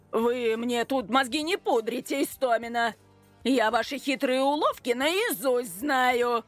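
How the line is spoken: Furious bark. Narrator (Russian): Рявкнул Аркадий Петрович, и его лицо снова начало наливаться дурной кровью

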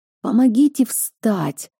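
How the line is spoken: Hoarse croak, coughing. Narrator (Russian): прохрипела и закашлялась

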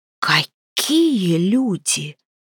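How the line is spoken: Hoarse rasp. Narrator (Russian): прохрипела Провена

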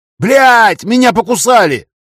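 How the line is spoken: Yelling under attack. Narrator (Russian): заорал я, когда толпа зомби набросилась на меня

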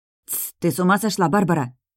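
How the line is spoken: Girl hissing. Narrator (Russian): раздалось шипение еще одной девицы

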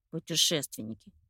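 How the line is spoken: Grumbling mutter. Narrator (Russian): пробурчал Андрейка

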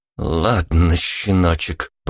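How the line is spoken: Through gritted teeth. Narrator (Russian): процедила Вика сквозь зубы

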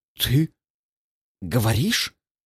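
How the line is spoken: Forced out awkwardly. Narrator (Russian): выдавил я, чувствуя себя идиотом

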